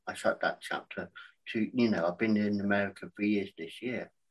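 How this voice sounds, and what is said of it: English accent. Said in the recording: “people in America saying, I love your accent”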